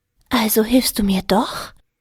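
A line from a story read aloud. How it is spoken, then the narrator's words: Hopeful female whisper. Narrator (German): flüsterte sie hoffnungsvoll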